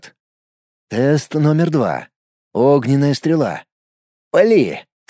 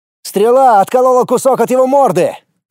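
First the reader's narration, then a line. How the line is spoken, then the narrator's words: Shouting while running. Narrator (Russian): крикнул, подбегая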